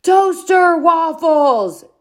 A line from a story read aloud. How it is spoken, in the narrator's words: Dad yelled louder